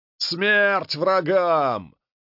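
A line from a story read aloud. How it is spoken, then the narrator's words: Enthusiastic yell. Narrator (Russian): воодушевленно заорал генерал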